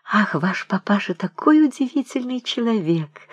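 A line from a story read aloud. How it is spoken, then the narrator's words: Enthusiastic whisper. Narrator (Russian): восторженно шептала Вера Александровна Груни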